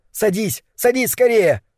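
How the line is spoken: Shouting urgently. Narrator (Russian): Кэл закричал

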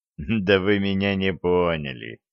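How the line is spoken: Laughing. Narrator (Russian): Дюк рассмеялся

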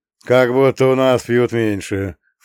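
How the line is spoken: Snorting. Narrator (Russian): фыркнул Джон

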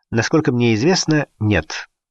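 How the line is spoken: Plain. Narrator (Russian): ответил полковник

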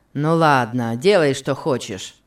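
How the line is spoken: Rough tone. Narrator (Russian): сказал он Касси грубым тоном

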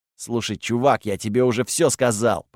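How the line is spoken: Grumbling. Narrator (Russian): проворчал Готфред

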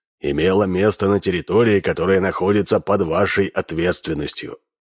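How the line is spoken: Stern. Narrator (Russian): строго продолжал Минц

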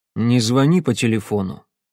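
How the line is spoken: Cold advice. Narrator (Russian): холодно посоветовал голос

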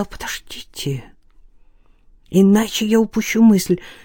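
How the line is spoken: Whisper. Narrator (Russian): Стефан прошептал

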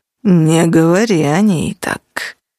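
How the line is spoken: Growling. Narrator (Russian): тут же зарычал

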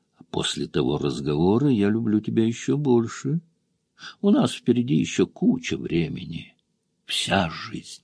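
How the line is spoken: Whisper. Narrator (Russian): прошептал

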